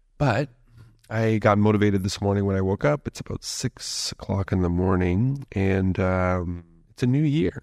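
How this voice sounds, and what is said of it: Groggy early-morning voice. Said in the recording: “it's early in the morning here and my voice is going to take a little bit of time to wake up”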